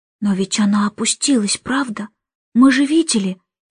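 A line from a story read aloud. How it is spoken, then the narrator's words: Whisper. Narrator (Russian): прошептал он, обращаясь к Джейн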